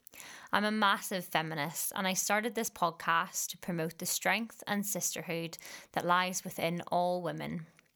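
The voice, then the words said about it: Northern Irish accent. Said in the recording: “as you can tell from my accent, I'm originally from Northern Ireland”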